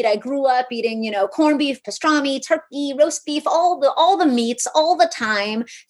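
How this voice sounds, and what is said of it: New York City accent. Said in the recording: “hear it in my voice, ... I'm from New York City”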